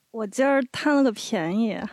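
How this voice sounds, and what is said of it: Beijing accent with erhua. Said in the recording (Chinese): “用北京话说一下”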